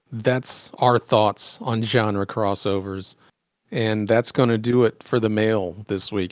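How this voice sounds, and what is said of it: Strained, worn-out voice. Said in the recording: “My voice is dying ... You got an hour plus out of that voice today”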